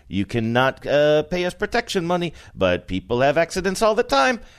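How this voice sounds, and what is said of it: Poor gangster voice, upstate New York-like. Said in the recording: “it's almost gangstery ... That's not a good imitation, what I just did. ... region of the world that's from. ... Utica? ... It's definitely upstate New York.”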